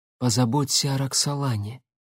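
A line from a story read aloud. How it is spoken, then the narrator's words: Quiet but clear. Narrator (Russian): тихо, но отчетливо произнесла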